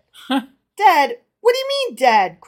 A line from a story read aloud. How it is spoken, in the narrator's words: cried the rich man angrily